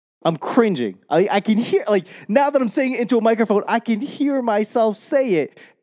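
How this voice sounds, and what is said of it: Boston accent. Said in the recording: “my Boston accent”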